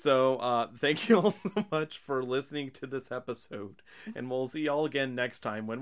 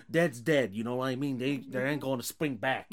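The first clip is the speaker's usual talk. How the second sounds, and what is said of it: Imitates another person's voice. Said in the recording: “that was my god awful Tony ... impersonation.”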